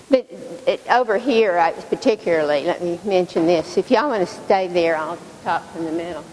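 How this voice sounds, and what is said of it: Tennessee Southern accent. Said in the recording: “This is not a Texas accent, it's a Tennessee accent.”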